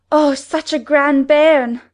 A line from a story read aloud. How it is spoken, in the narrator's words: she panted out